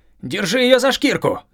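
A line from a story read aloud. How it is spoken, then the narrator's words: Shout. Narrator (Russian): крикнул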